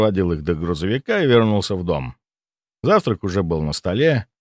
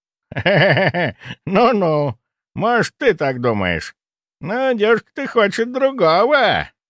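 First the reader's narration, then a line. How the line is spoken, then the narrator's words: Chuckling. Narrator (Russian): хохотнул он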